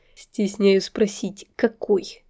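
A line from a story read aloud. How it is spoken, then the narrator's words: Skeptical snort. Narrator (Russian): Хмыкнул Марк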